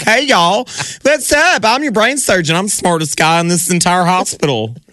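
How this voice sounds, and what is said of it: Put-on Southern US accent. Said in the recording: “with a southern accent ... I'm sorry, southerners”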